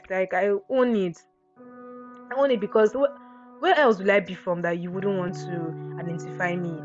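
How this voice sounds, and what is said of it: Nigerian Akwa Ibom accent. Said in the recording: “I have my own accent. God, I have it. ... I'm from Akwa Ibom. So if, yeah, and so what, I have the accent. And so what, I pronounce West as West.”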